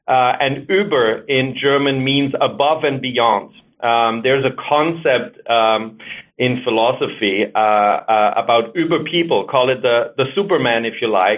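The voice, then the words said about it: German accent. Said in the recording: “I'm German, as you can hear from my accent.”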